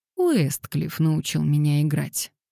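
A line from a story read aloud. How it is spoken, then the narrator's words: Glum, wry. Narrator (Russian): уныло улыбнулась Лилиан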